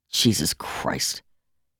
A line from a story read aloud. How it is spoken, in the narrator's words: Jeff said bitterly